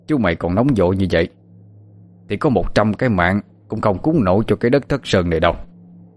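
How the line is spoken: Stern voice. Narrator (Vietnamese): Chính danh vừa bước vừa cười, nghiêm giọng nói

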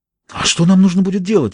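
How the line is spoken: Breathed out. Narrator (Russian): выдохнула она

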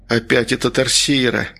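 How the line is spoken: Quiet. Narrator (Russian): тихо произнес Трясогузов

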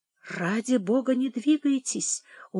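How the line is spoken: Pleading whisper. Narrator (Russian): умолял доктор шепотом

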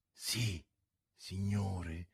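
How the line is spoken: Frightened, barely audible reply. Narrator (Italian): rispose così piano che a malapena lo si poté udire, lo spaurito borghese

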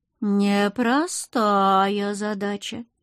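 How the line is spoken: Drawn-out, drawling. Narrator (Russian): протянула она

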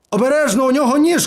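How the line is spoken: Shout. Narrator (Ukrainian): крикнув

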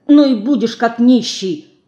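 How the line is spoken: Snapping retort. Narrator (Russian): Огрызнулась Динка

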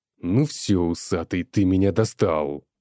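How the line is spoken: Threatening bald man. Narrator (Russian): угрожающим тоном говорит лысый

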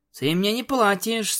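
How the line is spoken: Sleepy purring murmur. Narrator (Russian): сонно проурчал Спайк

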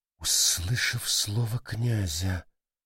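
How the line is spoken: Muttered. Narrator (Russian): пробормотала Гранни

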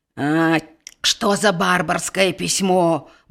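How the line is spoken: Grumbling. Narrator (Belarusian): бурчэў ён

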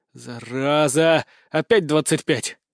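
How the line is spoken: Exhaled. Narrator (Russian): выдохнул

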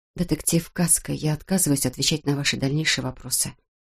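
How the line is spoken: Quiet. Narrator (Russian): тихо произнесла она

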